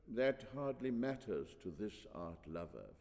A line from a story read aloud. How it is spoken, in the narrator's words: Physignatus murmured waspishly